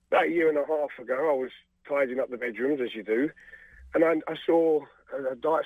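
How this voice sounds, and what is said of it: Choked-up, emotional voice. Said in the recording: “I'm getting a bit choked up here.”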